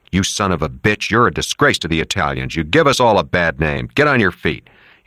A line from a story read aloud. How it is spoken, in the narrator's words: Nary said to him harshly